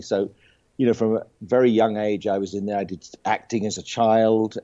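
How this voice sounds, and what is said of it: British accent. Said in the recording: “you can you probably tell by my accent, of course ... I was actually born in the UK”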